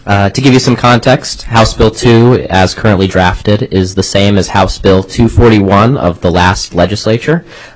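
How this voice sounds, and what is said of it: Slightly raspy voice. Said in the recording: “I'm also getting over a cold, so please forgive me if I'm a little raspy.”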